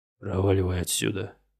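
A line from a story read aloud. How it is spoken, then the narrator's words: Hissed into ear. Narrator (Russian): прошипел он ей на ухо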